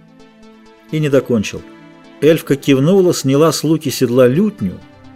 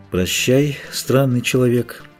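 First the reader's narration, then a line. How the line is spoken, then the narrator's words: Said quietly. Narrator (Russian): тихо сказал Филавандрель Геральту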